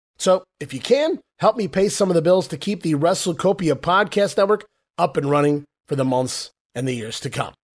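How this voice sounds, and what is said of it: Sick-sounding voice. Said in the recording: “you can hear from my voice, guys, through sickness and in health”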